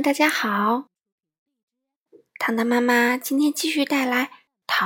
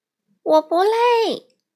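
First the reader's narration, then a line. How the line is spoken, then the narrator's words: Shouting. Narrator (Chinese): 小格叫道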